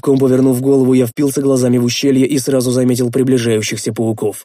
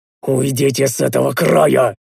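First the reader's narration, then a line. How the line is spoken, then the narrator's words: Hissing through teeth. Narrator (Russian): прошипел я сквозь зубы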